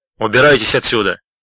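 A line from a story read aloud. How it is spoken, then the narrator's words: Trained, projecting shout. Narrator (Russian): крикнул он хорошо поставленным голосом, словно обращался к толпе зевак, сбежавшихся поглазеть на уличное происшествие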